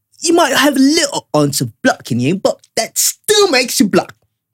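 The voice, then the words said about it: Convincing put-on accent. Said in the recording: “Damn, your accent's still on point. ... sounds legit to me.”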